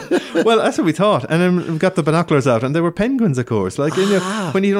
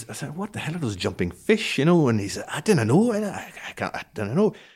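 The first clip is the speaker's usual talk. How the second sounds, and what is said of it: Put-on Scottish accent. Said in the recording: “That's a good Scottish accent... Very good.”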